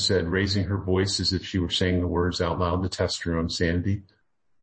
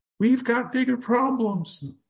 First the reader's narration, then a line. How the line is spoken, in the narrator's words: Lem had to yell over the incredible and horrifying volley of waves